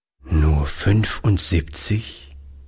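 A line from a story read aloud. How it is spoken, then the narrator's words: Old man, sad repetition. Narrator (German): wiederholte der Alte traurig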